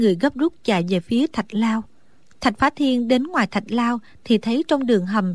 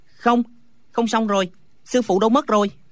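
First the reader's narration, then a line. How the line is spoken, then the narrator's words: Panting shout. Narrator (Vietnamese): vừa thở hồng hộc vừa la lên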